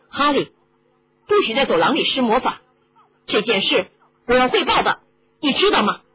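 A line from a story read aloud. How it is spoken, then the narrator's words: Loud. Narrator (Chinese): 波西大声地说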